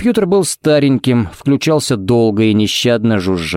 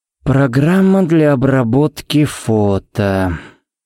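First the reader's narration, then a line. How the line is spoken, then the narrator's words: Drawling. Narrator (Russian): протянул Харри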